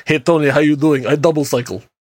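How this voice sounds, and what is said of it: Very thick put-on accent. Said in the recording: “in this very thick accent”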